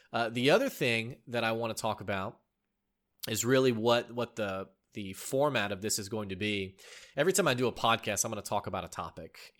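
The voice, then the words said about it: Congested voice with sniffles. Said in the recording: “I have had a pretty bad cold over the last couple of days, so you might hear a couple of sniffles... I'm battling that cold... not sniffling too much into the microphone”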